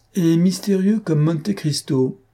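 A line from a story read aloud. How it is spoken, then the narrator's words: Laughing official. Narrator (French): dit en riant le préfet de police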